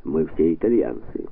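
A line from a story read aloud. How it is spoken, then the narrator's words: Dry, curt general. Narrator (Russian): сухо сказал генерал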